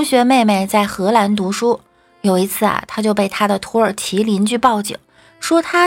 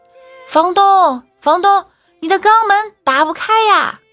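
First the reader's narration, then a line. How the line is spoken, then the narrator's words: Loud call upward. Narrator (Chinese): 他大声的朝楼上喊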